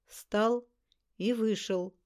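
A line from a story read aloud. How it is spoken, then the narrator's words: Calm. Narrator (Russian): спокойно сказал он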